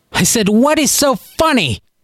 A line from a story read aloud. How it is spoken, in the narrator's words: Nana roared this time, obviously losing patience